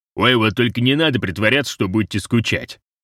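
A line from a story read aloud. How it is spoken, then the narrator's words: Snorting. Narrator (Russian): фыркнул Розе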